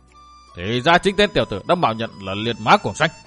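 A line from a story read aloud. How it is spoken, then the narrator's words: Loud shout. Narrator (Vietnamese): Cổn Châu hiệp quát to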